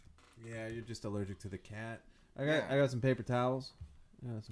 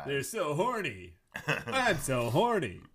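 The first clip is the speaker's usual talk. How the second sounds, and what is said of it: Strip club DJ voice. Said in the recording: “the Troy McClure voice is strip club DJ voice”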